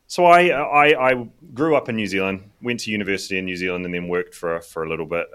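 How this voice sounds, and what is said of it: Hybrid New Zealand-British accent. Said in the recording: “I am originally from New Zealand. But I now live in the United Kingdom ... which is why I have a little bit of a hybrid accent that you might not be able to place.”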